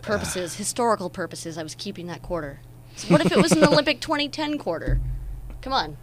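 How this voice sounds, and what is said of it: Sarcastic delivery. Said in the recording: “I'm being sarcastic, by the way. By the way, listeners, I'm being sarcastic.”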